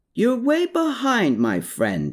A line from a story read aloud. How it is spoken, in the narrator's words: called out